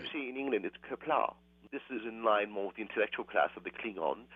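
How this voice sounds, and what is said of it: Affected put-on accent. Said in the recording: “speaking a little differently than the way you spoke before you left? ... perhaps my time immersed in the culture mm-hmm. has affected my accent a bit”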